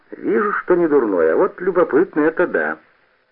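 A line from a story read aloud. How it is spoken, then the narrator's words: Laughing. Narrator (Russian): Марусяк засмеялся и сказал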